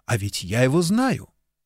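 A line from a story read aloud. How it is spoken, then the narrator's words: Startled exclamation. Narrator (Russian): Алекс невольно вздрогнула и воскликнула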